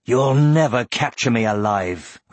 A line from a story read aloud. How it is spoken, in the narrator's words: growled Aragorn